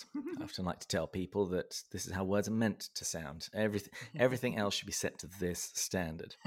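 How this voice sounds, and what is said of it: Southern English accent. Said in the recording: “I was born and raised in the south of England, in the county of Berkshire. And that's why my accent is the way that it is.”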